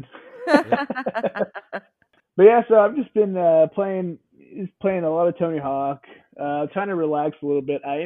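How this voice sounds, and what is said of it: Congested, stuffy voice from cold. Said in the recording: “I sound a little congested and kind of off a little bit, as I've been dealing with the cold”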